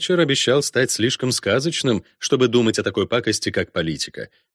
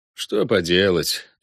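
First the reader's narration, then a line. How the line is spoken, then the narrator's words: Regretful sigh. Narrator (Russian): вздохнул Волме, которому тоже было жаль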